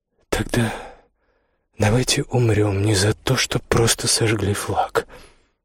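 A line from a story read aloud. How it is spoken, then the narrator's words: Quiet. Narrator (Russian): тихо сказала Иоганна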